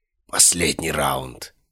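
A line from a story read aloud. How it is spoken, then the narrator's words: Killer's hoarse rasp. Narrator (Russian): прохрипел убийца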